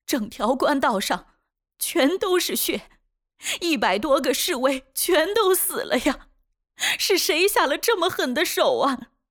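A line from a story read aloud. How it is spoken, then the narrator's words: Sobbing, weak. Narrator (Chinese): 痛哭不止，无力地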